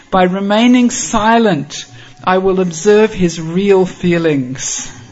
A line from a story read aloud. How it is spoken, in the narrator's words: Chandravali happily says to herself